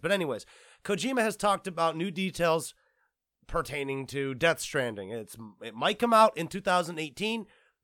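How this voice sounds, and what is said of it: Wavering, sick-sounding, slightly slurred voice. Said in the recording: “Why do I sound like I'm drunk? I'm not actually drunk, people. I'm sick. So if you do hear a wavering in my voice or if my voice sounds a little different”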